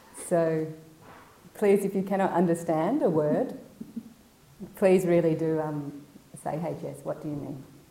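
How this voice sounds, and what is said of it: Strong Australian accent. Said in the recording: “I can have quite a strong Australian accent”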